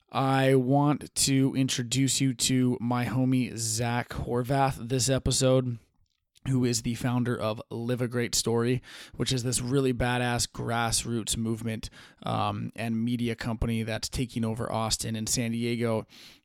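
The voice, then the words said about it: Sleepy, tired-sounding voice. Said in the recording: “It's getting a little late over here, so I apologize if my voice sounds sleepy.”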